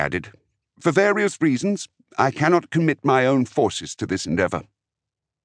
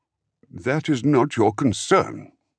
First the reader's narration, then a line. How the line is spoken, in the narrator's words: Enzal said, his tone one of warning